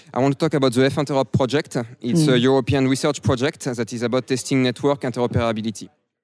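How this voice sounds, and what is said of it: Broad French accent. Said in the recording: “You have a very broad French accent.”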